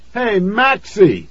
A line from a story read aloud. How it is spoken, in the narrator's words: he shouted